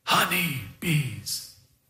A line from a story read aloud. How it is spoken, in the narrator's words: whispered